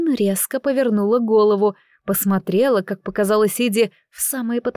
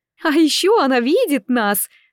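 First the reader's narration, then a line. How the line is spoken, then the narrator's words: Girl laughing. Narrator (Russian): девушка засмеялась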